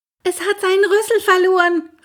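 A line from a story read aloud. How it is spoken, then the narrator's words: Calling out. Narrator (German): rief er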